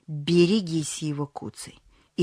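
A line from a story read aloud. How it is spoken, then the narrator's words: Terrifying voice. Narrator (Russian): проговорил это таким страшным голосом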